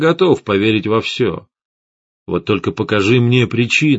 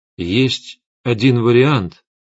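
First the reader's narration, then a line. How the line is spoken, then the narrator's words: Uncertain. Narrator (Russian): неуверенно сказал я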